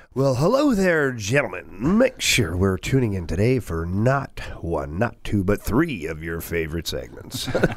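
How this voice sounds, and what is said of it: Strip club announcer voice. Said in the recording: “doing the strip club voice all morning”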